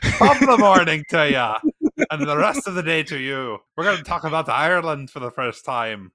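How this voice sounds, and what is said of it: Put-on Irish accent. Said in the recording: “This is my Irish accent. ... I'm going to talk with an Irish accent.”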